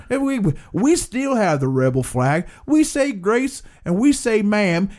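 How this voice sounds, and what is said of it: Put-on Alabama Southern accent. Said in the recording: “That's a specific Alabama accent.”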